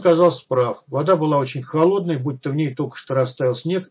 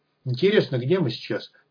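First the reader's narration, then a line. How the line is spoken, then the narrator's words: Muttering to no one. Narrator (Russian): никому конкретно не обращаясь, пробормотал Соболь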